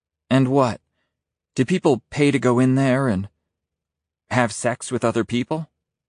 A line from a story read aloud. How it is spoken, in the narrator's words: Her voice is timidly curious, but I note a slight tone of censure